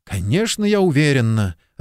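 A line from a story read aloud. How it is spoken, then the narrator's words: Irritated. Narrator (Russian): раздраженно ответила она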